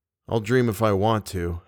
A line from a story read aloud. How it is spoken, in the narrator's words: I said